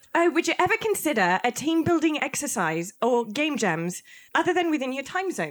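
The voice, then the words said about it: Put-on British accent. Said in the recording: “can you read this in your UK voice?”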